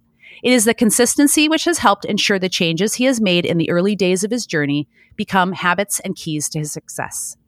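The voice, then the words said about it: American accent. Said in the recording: “in an American accent”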